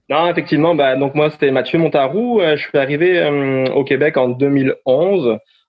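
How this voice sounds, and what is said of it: Non-Québécois French accent. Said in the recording (French): “j'entends un accent ... t'es pas vraiment québécois natif”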